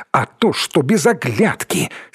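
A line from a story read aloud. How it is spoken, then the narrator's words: Angry, offended. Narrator (Russian): сердито сказал Переслегин, как будто бы даже обидевшись на Данилова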